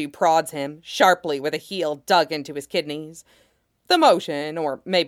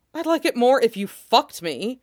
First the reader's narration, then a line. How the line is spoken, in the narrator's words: he snaps